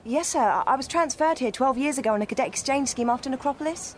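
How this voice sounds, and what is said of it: British accent. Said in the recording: “That a Brit set accent?”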